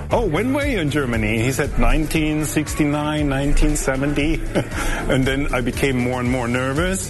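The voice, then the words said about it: German accent. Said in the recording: “Where's your accent for?" I said, "From Germany.”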